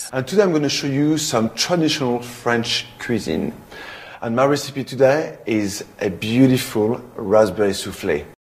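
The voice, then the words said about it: French accent. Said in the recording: “hearing his accent ... his French accent”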